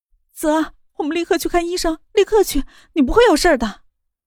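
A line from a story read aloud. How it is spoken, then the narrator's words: Crying. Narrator (Chinese): 莫雨涵 她哭着道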